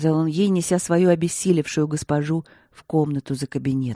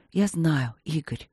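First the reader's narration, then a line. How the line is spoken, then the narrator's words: Smiling whisper. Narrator (Russian): прошептала, улыбаясь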